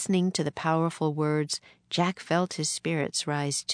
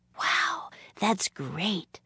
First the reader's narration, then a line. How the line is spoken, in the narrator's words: whispered Annie